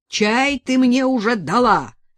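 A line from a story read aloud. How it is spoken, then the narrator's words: Harsh bark. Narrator (Russian): рявкнул Степан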